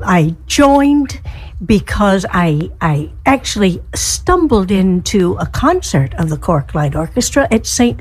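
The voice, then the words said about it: Southern US accent. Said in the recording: “my accent tells you that I'm from the south part of the United States”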